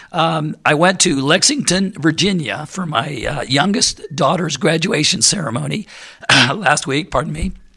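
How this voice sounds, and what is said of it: Rough, strained throaty voice. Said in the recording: “my voice is like this ... I got something in my throat ... it sounds awful to me just saying it”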